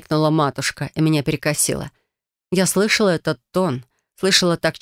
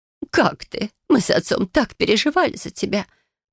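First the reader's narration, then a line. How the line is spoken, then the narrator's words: Mother, sorrowful sigh. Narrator (Russian): произнесла матушка и горестно вздохнула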